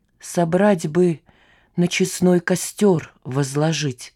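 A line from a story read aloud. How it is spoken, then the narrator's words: Moaning. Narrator (Russian): простонала бельчиха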